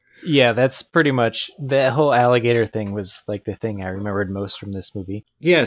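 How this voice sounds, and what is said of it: Usual voice. Nothing is said of it.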